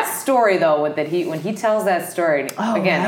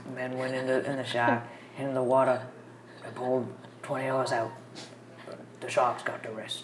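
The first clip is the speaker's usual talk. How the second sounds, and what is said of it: Imitates another person's voice. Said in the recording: “I'm going to do my impression. He's like...”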